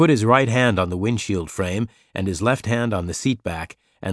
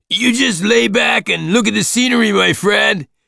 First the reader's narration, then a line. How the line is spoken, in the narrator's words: the driver shouted over the muffler noise